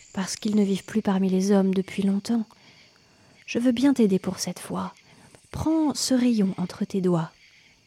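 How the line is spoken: Sighing. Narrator (French): soupira la lune

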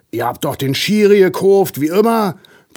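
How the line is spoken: Roar. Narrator (German): brüllt es

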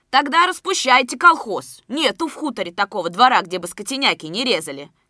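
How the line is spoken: Shout. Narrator (Russian): крикнул Борщев

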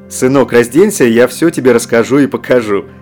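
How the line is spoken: Father laughing. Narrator (Russian): смеялся отец

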